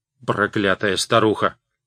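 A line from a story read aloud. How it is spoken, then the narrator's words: Grumbling mutter. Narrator (Russian): пробурчал Видаль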